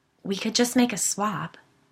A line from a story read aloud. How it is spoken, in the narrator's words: Sigourney said, quietly